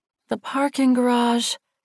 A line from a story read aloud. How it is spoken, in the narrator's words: she groaned